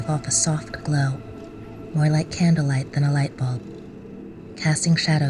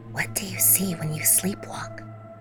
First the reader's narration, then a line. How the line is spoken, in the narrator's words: She whispers intensely